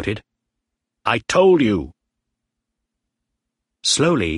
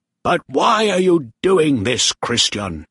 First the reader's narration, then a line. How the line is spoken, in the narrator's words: Bly shouted angrily